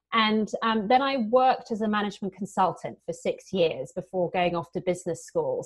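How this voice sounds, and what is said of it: British accent. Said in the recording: “as you can probably hear from my accent, I'm British”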